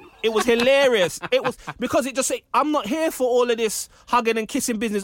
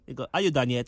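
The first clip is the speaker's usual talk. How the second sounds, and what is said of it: Poor put-on African accent. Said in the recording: “That's a really poor African accent”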